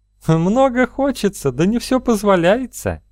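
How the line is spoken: Laughing. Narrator (Russian): рассмеялась она

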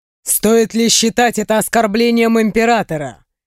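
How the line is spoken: Smirking. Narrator (Russian): хмыкнул мужчина

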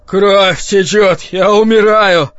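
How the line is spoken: Moaning, in pain. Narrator (Russian): простонал Кинан

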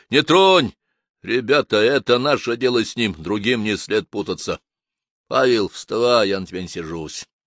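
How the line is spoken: Calm. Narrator (Russian): спокойно произнес Луговской

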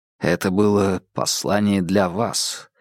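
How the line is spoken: Quiet remark. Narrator (Russian): тихо заметил Холмс

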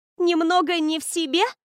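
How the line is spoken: Amused loud laughter. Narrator (Russian): Расхохоталась Лора, нашедшая в этом смешную игру слов

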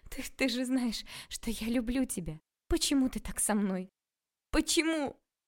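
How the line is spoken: Sobbing, out of control. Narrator (Russian): Окладникова, не в силах больше контролировать себя … рыдать

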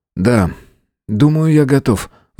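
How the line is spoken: Sigh. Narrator (Russian): вздохнул Фауст

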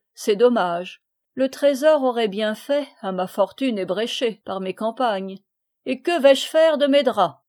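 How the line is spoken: Laughing. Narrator (French): dit-il en riant

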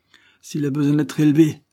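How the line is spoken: Vociferous shout. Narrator (French): vociféra Cornélie

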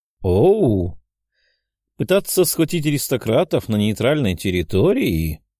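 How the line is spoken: Slow drawl, woman. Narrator (Russian): Медленно протянула женщина

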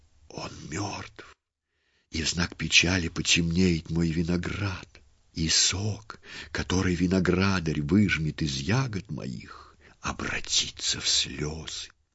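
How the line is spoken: Whispering. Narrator (Russian): Сарептская лоза шептала

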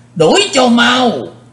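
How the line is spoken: Sharp shout. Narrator (Vietnamese): tiếng quát

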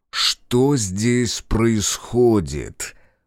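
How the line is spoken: Venomous confident hiss. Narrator (Russian): Голос Кроу прозвучал, как шипение тайпана, уверенного в убийственной силе своего яда

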